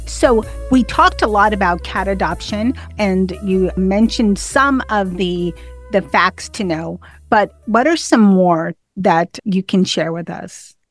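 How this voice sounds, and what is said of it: Speaks with a noticeable accent. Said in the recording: “with my accent.”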